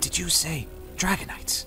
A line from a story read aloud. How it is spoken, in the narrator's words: He whispered